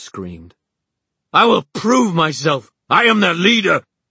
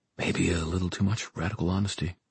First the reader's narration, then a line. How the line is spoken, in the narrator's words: Simon muttered